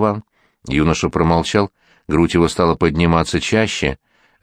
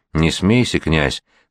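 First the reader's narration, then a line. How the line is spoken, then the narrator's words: Old man's trembling voice. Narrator (Russian): дрожащим голосом сказал старик Плещеев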